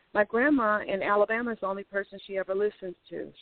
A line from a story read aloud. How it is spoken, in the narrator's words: she said